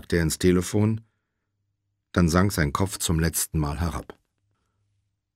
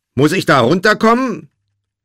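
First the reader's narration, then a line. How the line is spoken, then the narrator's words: Repeated bellowing. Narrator (German): brüllte Josh zum dritten oder vierten Mal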